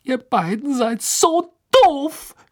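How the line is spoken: Screaming. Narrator (German): schrie sie und stampfte mit dem Fuß auf

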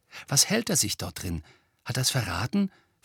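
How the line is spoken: Plain question. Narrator (German): fragte er

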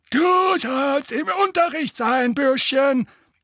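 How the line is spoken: Croaking gargoyle voice. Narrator (German): krächzte der eine

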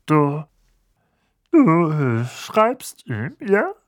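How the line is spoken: Strained calm. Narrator (German): sagte Onkel Vernon mit angestrengt ruhiger Stimme

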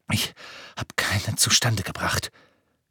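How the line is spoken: Panting. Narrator (German): keuchte er

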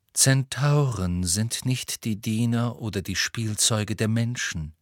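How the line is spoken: Calm. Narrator (German): sagte Firenze ruhig

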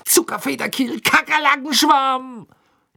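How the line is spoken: Angry shouting. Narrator (German): schrie er zornig

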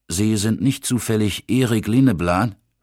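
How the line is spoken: Plain question. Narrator (German): fragte er

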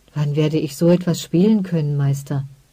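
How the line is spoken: Soft question. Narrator (German): fragte sie leise

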